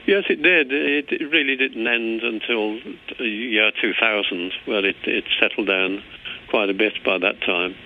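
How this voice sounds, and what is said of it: English accent. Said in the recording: “as an Englishman, it's very difficult for me to hide my accent.”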